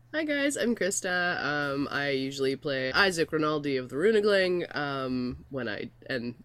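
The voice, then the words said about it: Sick, altered voice. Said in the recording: “my voice is deeper actually even than this right now. This is just smelly cat sick voice.”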